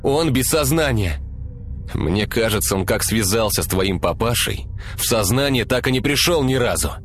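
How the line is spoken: Snapped. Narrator (Russian): огрызнулся Артем

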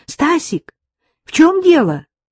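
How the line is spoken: Anxious shout. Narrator (Russian): тревожно крикнула она

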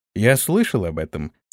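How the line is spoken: Calm objection. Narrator (Russian): спокойно возразил ему Антон

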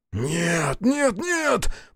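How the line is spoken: Shocked hoarse wheeze. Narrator (Russian): потрясенно сипел Аяшики

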